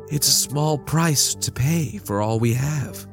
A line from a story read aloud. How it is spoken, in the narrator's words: she sighed